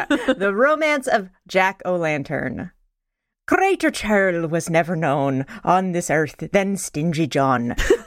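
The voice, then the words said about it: Irish accent reading a poem. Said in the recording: “Should I read a little bit of the poem with a Irish accent?”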